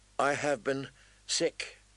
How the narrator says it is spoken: Danny said

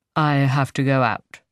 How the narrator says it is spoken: he says stiffly

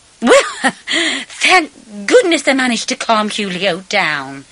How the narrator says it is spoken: she said gaily after a pause

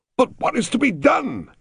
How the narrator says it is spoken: cried Mr

